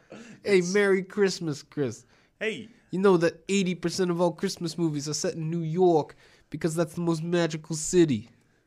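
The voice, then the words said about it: Exaggerated New York accent. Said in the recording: “three of my famous impressions ... voices ... my accents ... New York Joes ... you're trying to bring back New York Joe?”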